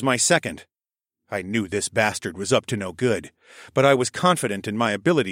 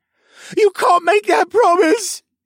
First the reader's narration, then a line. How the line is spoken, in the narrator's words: he cried